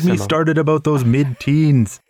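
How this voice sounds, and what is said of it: Put-on Canadian accent. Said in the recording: “You really are Canadian... if you had that accent”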